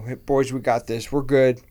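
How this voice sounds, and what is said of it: Imitates another person's voice. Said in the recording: “my Kyle Shanahan impression”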